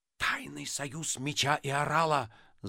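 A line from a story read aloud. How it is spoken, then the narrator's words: Ominous whisper. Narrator (Russian): зловеще прошептал Остап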